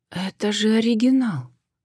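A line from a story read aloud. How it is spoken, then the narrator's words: Sudden breathless exhale. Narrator (Russian): вдруг выдохнула Джен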